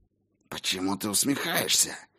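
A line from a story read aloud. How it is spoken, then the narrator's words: Hissed. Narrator (Russian): прошипела Клара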